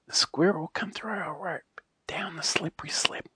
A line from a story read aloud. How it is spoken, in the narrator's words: whispered the tree